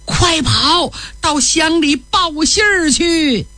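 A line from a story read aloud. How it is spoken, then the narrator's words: Desperate shout. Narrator (Chinese): 冲着儿子孙真喊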